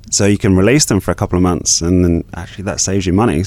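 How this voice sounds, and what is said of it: Slight English accent. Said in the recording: “A little bit of an accent still. So you're originally from England.”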